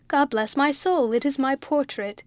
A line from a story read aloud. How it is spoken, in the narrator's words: Joe's cried out